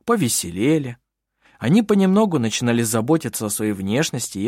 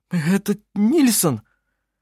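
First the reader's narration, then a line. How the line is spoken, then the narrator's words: Trembling voice. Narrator (Russian): дрожащим голосом произнес он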